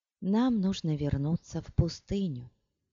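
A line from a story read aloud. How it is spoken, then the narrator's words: Quiet. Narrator (Russian): негромко сказала она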